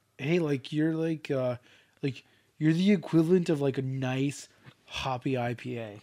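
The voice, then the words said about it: Put-on Southern California accent. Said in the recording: “I would say that was like weirdly like a South California accent,”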